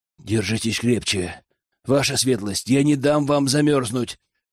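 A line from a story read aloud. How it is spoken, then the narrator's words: Coaxing whisper. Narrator (Russian): вкрадчиво прошептала Злата мне на ухо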